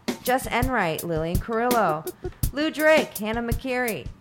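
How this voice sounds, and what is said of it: Yelling names loudly. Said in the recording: “I don't know why I'm yelling.”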